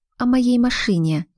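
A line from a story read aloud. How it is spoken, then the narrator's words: Sighed. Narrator (Russian): вздохнула Глаша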